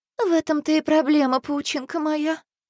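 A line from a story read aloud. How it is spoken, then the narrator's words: Sighing. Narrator (Russian): вздохнула мама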